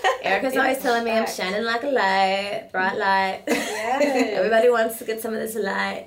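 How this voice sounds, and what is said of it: Southern Alabama accent. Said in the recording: “There goes that Alabama or whatever accent that is.”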